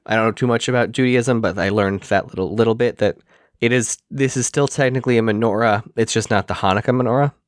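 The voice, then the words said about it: Strained, fading hoarse voice. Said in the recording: “my voice is starting to go out ... voice is maybe not going to make it 90 minutes”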